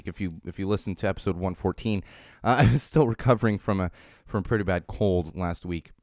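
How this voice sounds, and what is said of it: Slightly raspy voice. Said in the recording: “My voice is still a little raspy ... still having a little raspiness in my voice here”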